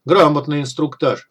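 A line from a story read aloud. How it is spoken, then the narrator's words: Snorting. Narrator (Russian): хмыкнул Дегтярь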